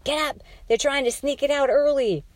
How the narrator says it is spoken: A man screamed

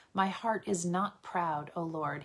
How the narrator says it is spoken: he says

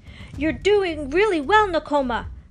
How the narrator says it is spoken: Pocahontas shouted back

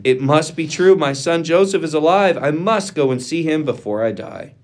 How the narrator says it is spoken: Jacob exclaimed

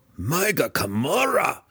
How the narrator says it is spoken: Belwar screamed

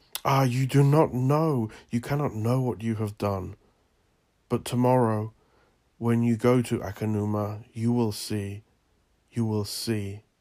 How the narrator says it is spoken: she exclaimed

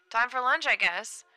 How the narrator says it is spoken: Red said cheerfully

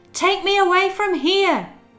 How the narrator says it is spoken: shouted Aladdin

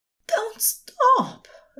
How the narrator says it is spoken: Aziraphale cried, low

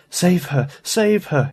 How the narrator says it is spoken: he moaned

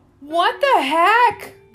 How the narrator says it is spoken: the customer yelled

